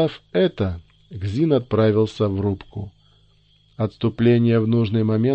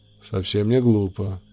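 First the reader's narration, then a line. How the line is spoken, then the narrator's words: Grunted. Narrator (Russian): буркнул Кзин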